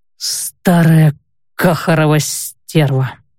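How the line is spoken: Mutter. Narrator (Russian): пробормотал он

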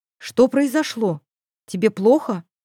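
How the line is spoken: Stern, subtly worried. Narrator (Russian): Голос звучал строго, но в нем все равно неуловимо угадывалось волнение

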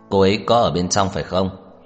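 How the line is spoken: Slightly raised voice. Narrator (Vietnamese): Tưởng Thiên Lỗi nhìn thái độ của Trần Mạn Hồng cứng rắn, hơi cất cao giọng

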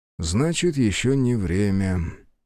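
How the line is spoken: Sighing. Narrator (Russian): вздохнул призванный герой

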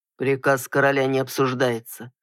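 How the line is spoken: Muffled annoyed reply. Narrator (Russian): глухо ответил, почувствовав досаду

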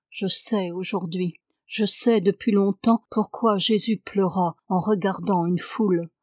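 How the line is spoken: Sighed. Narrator (French): soupira-t-il

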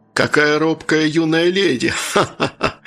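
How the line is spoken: Guffawing. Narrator (Russian): хохотнул Джон

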